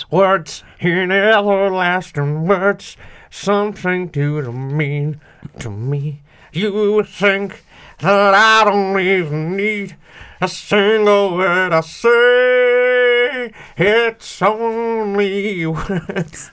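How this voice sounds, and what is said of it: Sung impression of a pop singer. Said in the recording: “I can do a good Ronan Keaton impression.”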